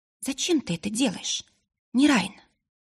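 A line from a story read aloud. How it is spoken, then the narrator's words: Quiet question. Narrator (Russian): она тихо спросила в пустоту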